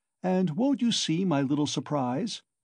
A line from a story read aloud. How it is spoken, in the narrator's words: chuckled Porfiry